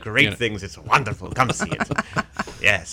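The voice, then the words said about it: Put-on debonair Spanish accent. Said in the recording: “with the accent ... debonair, sexy Spanish guy, which, of course, is what I'm doing for the show”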